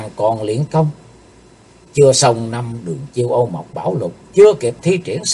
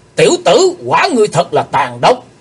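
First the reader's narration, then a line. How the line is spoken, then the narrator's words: Shouted. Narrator (Vietnamese): Theo tiếng quát, hắc y sứ giả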